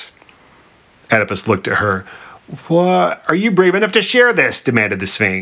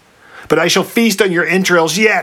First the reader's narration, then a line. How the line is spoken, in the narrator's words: shrieked the Sphinx